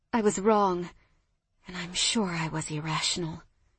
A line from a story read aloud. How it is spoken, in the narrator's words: I whispered